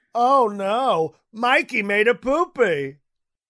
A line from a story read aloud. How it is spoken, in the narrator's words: yelling